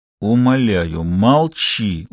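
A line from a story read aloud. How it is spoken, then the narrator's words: Through gritted teeth. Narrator (Russian): успел процедить Миша сквозь зубы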